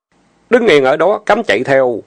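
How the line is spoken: Sharp shout. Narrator (Vietnamese): Tiểu Bàn quát

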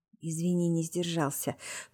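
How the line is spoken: Whisper. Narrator (Russian): прошептал Витя через минуту

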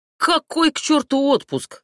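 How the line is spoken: Barked. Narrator (Russian): рявкнул он

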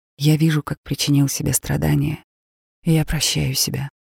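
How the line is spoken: Silent inner whisper. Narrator (Russian): мысленно прошептать

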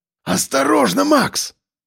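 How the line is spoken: Hoarse rasp. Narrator (Russian): прохрипел Сальников

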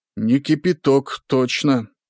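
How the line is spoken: Plain. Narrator (Russian): сказал первый

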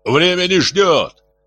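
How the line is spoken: Shouting. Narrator (Russian): кричал Дмитрий

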